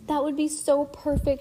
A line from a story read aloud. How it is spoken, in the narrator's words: she cried